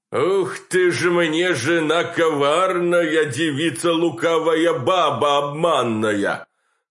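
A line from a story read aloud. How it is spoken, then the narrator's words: Roaring male bass. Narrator (Russian): тут же взревел мужской бас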